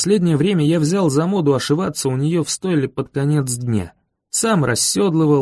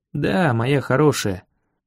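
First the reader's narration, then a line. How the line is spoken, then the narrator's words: Quiet speech. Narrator (Russian): тихо сказал я ей промеж ушей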